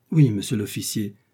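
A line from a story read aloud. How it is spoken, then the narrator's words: Terrified stammering. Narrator (French): balbutia le mercier plus mort que vif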